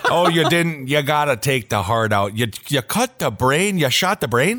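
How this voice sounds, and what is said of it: Put-on Midwest American accent. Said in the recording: “It's almost creepier with a Midwest accent.”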